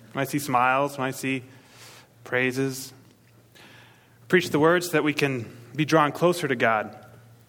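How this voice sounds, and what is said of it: Slight backwoods Maine accent. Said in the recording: “I'm from Maine, so there'll be an accent occasionally. It's leaving, thankfully. Sounds kind of backwoodish. That's Maine.”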